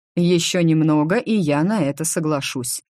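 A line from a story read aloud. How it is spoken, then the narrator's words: Plain. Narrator (Russian): ответил Фредерик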